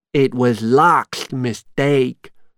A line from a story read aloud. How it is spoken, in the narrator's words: said Shock